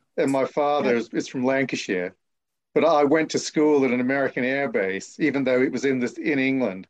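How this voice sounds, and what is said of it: Hard-to-place English accent, Australian-sounding. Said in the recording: “it doesn't sound like Suffolk ... I have been mistaken for an Australian on occasion ... the way I speak, which confuses a lot of people ... you can hear that underline, much more than Australian”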